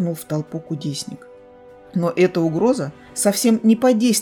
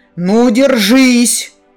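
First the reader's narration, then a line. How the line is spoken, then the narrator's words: Roaring. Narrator (Russian): взревел Кудьяр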